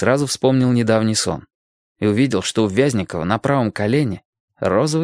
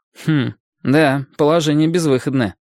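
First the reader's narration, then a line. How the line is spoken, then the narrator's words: Wry grunt. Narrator (Russian): хмыкнул Лесь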